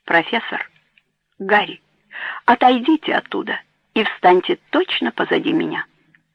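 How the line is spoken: Low, confident voice. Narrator (Russian): Анна сказала низким, уверенным голосом

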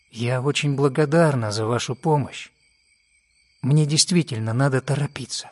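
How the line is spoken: Gentle, young woman. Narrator (Russian): Девушка ласково сказала

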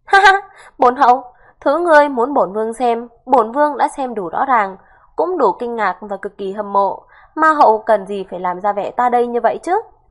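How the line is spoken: Loud laugh, then speaking. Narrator (Vietnamese): Phần Nguyệt Thần Đế cười lớn một tiếng, lắc đầu nói

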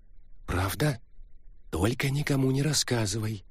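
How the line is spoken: Theatrical whisper. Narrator (Russian): театральным шепотом попросила Мегера

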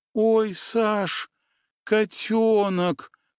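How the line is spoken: Drawn-out. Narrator (Russian): протянула Аня

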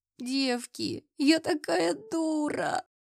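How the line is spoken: Sobbing. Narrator (Russian): всхлипывала я

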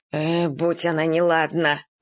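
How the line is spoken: Grumbling man. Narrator (Russian): ворчал мужик

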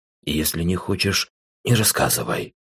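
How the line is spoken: Quiet. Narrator (Russian): негромко произнес

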